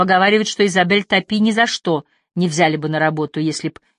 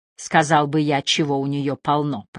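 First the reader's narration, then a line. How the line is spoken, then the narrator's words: Grumbling. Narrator (Russian): проворчал Скунс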